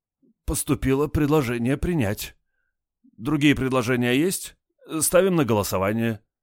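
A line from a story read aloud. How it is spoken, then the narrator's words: Hoarse. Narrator (Russian): Парторг сипло сказал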